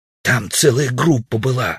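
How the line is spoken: Defensive loud whisper. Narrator (Russian): оправдывался Удалов громким шепотом

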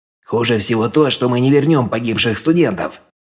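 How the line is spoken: Irritated growl. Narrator (Russian): раздраженно рыкнул в ответ Хёгни

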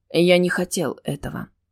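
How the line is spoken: Unexpectedly gentle. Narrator (Russian): неожиданно мягко сказал Келфер

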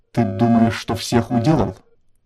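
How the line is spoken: Resigned hiss. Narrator (Russian): обреченно прошипел посланник

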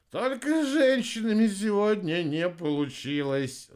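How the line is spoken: Sighing. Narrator (Russian): вздохнул Рикки

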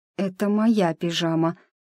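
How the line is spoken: Strained, forced out. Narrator (Russian): с трудом выдавила

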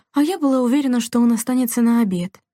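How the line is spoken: Sighing. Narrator (Russian): вздохнула Делла

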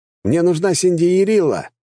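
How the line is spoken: Shouting. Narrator (Russian): закричал я

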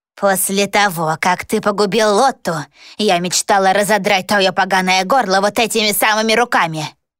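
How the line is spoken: Hissing. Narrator (Russian): прошипела она

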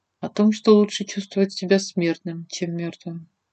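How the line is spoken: Quiet reply. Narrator (Russian): тихо произнесла я в ответ

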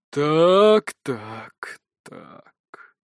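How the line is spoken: Muffled, dark lord. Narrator (Russian): глухо произносит темный владыка

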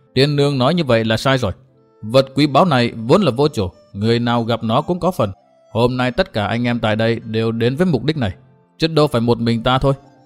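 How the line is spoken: Laughing loudly. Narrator (Vietnamese): Mai Hoa hội chủ cười to nói

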